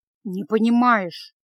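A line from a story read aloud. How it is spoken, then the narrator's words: Gloomy mutter. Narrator (Russian): мрачно пробормотал Кард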